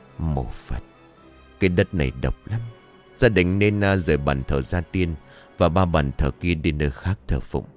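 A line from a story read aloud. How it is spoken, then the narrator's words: Monk sighing. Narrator (Vietnamese): vị sư thở dài bảo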